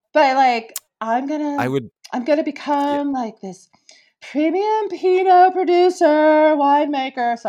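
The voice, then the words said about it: Mocking douchey impersonation voice. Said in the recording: “I have to do my voice like that, because it just was such a, like a douchey thing”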